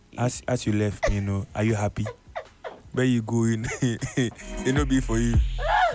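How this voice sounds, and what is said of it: Nigerian accent. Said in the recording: “your Niger accent come and everything”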